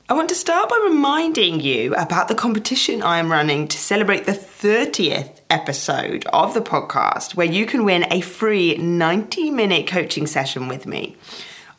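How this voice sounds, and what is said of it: Slightly strange voice from a cold. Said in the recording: “I have now got a little bit of a cold ... my voice sounds a little bit strange today”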